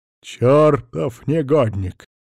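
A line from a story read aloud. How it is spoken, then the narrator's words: Hiss. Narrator (Russian): прошипел Адольф Брониславович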